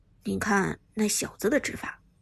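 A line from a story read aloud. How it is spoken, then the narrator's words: Low voice. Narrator (Chinese): 乐章低声说道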